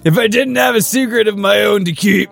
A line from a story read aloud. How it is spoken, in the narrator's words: the voice laughed